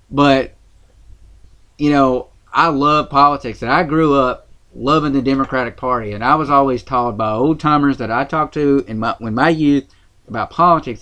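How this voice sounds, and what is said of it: Southern US accent, Tennessee. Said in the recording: “being from Tennessee, you know, that Southern accent, you probably can hear it on this microphone”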